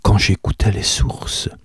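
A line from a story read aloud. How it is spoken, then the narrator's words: Murmured. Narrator (French): murmura Aseline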